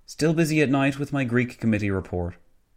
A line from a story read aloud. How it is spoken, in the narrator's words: Nicholson sighed, adding